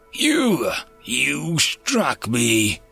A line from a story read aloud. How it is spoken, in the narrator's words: exclaimed Jassa in a much less domineering tone than he'd been using up to date